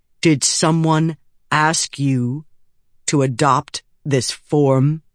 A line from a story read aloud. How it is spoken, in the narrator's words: Eshonai said, speaking slowly and clearly